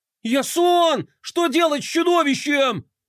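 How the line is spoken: Panicked yelling. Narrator (Russian): в панике вопил Флай

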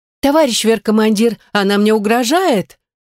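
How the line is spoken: Melodramatic exclamation. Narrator (Russian): Патетично воскликнула эта пиглица

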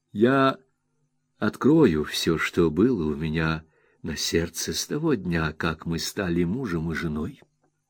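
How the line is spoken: Quiet, meek, touching. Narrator (Russian): сказала тихо, покорно и трогательно

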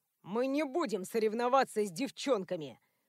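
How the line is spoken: Scornful snort. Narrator (Russian): Фыркнул

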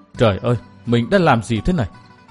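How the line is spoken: Dazed muttering. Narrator (Vietnamese): Chàng thờ thẫn lẩm bẩm

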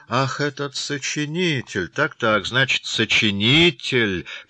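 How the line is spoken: Official drawling. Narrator (Russian): протянул начальник управления

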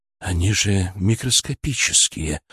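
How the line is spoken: Breathed out. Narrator (Russian): выдохнул Киселев

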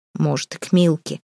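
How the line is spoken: Grumbling guard. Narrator (Russian): пробурчал другой страж

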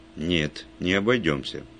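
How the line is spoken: Stern inspector. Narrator (Russian): строго сказал инспектор

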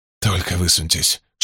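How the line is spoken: Whisper. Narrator (Russian): шепнул Эрл своим товарищам

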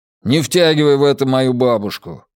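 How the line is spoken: Grumbling. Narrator (Russian): проворчал Дрюскель

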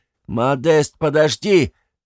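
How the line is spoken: Yelled. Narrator (Russian): Четвертый, тот самый лейтенант, заорал

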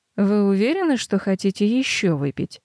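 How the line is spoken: Dry question. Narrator (Russian): спрашивает сухо

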